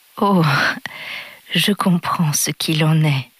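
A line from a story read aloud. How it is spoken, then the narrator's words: Soft speech. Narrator (French): dit-il doucement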